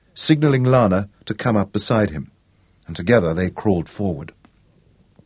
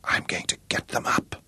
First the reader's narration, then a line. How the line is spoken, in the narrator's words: whispered